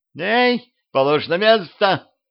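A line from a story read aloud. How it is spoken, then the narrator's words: Frightened yelling. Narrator (Russian): испуганно орала голова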